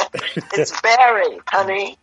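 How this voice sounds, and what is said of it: Attempted American accent. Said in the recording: “My wife trying to do an approximation to an American accent. ... She's had a few glasses of wine”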